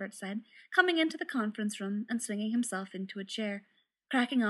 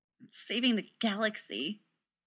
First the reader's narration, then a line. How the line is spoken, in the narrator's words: Rodney said bitterly